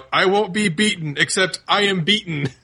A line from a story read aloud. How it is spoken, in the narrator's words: the nurse shouts out